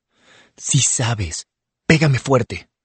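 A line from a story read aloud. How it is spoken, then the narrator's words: Murmured. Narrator (Spanish): murmura Tiny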